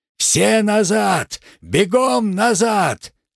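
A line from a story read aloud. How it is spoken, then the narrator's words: Yelling. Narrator (Russian): заорал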